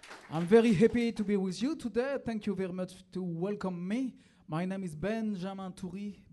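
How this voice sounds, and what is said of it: French accent in English. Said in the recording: “I'm coming from Paris, as you can hear with my cool accent”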